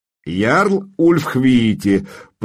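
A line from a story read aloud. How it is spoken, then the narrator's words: Speaking after laughing. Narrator (Russian): проговорил он, отсмеявшись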